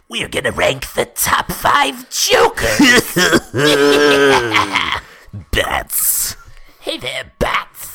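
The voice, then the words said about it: Joker cartoon villain voice. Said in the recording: “can you do it in a Joker voice?”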